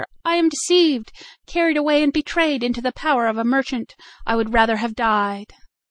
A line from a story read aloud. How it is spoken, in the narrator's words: she cried in terror